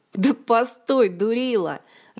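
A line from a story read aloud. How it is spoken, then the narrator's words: Loud laughter. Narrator (Russian): расхохотался Диего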